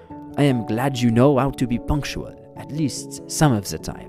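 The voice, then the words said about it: Put-on French accent. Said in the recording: “Sorry about the French accent again, I just had to do it.”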